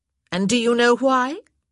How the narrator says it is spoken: she demanded, her voice rising dangerously

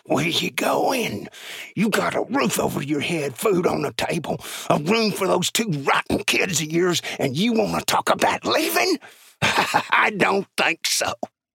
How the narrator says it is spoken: He hissed into her ear

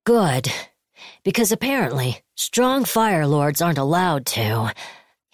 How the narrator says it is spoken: he sighed

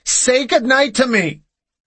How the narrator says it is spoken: Janie screamed

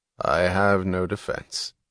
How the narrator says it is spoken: his voice inflectionless and peculiarly clear, Hank Reardon answered

